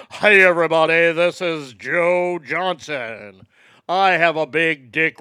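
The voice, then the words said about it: Cheesy radio announcer voice. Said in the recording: “radio voice”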